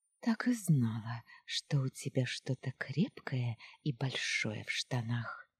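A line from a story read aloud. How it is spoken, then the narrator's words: Whispered. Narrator (Russian): шептала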